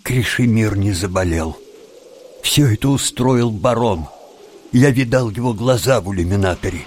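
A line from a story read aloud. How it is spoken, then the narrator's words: Glum, forced calm. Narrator (Russian): уныло ответил Тим и, стараясь говорить спокойным голосом, добавил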